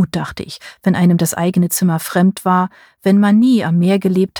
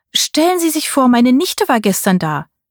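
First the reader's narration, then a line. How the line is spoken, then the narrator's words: Cheerful call. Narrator (German): rief Tantchen mir fröhlich zu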